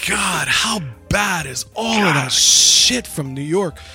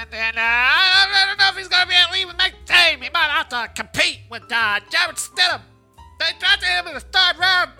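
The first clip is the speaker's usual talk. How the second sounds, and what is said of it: Imitates another person's voice. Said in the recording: “bad whatever impression I was trying to do ... you were pretty spot on”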